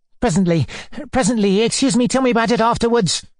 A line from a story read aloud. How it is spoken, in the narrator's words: cried Mr